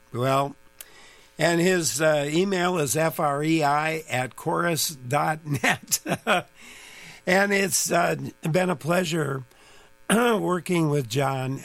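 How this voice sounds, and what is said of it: Voice sounds bad, strained. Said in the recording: “my voice has all suddenly gotten so bad”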